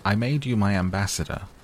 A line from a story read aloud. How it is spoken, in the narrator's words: the king called out hastily